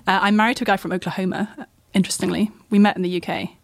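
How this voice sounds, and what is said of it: British English accent. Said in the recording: “I come from the UK, in case no one can notice that from my deep southern accent.”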